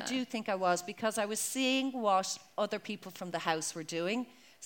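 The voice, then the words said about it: Irish accent with London twang. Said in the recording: “English twang, you know, I have such a kind of a London thing going on there ... you so, still sound Irish though ... mostly Irish with the London twang going on”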